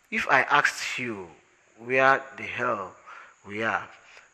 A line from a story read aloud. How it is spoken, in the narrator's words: said Arthur weakly